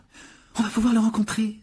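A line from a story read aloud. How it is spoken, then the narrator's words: Exclaiming. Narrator (French): s'écria Hermione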